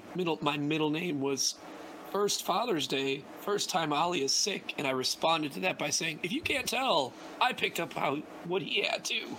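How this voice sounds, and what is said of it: Drained, worn-out sick voice. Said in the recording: “my voice is drained. Like I don't actually feel as bad as I sound. My voice just decided to get like destroyed.”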